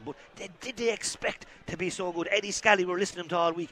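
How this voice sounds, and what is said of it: Whispering. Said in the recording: “why I'm whispering,”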